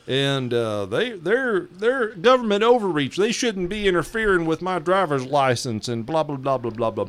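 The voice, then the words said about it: Put-on Southern American accent. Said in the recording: “I'm going to get into my Southern accent here. ... I can actually do a really good Southern accent.”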